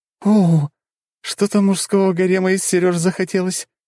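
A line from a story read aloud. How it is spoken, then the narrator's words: Giggling. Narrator (Russian): хихикала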